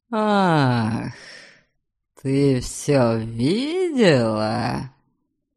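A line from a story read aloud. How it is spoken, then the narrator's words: Spluttering hiss. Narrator (Russian): Прошипел он, брызгая слюной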